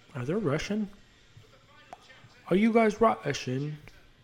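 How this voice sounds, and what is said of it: Poorly done put-on foreign accent. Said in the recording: “That was a terrible accent of whatever the fuck I tried to say.”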